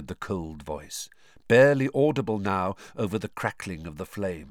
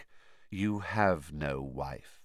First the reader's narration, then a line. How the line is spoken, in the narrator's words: said the cold voice, very quietly